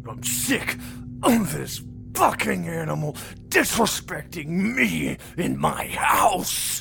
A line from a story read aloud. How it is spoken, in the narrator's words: Carl snarled drunkenly